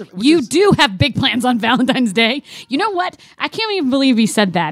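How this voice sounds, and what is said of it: Yelling, raised angry voice. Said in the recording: “You're yelling at me. ... I'm a guest in your house and you're yelling at me.”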